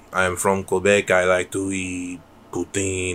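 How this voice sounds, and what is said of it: Bad fake French Canadian accent. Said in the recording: “little fake French Canadian accent ... I'm doing a really bad accent”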